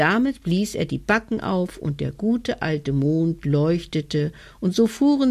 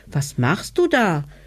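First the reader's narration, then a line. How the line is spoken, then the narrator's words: Child calling upward. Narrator (German): rief der kleine hinauf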